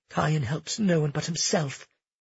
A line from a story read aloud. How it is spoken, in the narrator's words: Cleo muttered